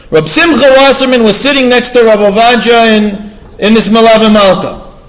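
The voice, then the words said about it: Ashkenazi Hebrew pronunciation accent. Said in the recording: “I fell into complete Ashkenaz accent now. It's over.”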